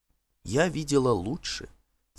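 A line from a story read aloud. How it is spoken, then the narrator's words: Quiet, as if to herself. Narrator (Russian): тихо ответила она, точно разговаривала сама с собой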